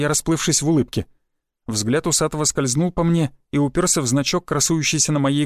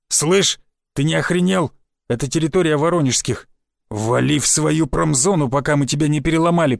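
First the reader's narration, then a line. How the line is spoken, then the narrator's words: Growl. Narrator (Russian): прорычал он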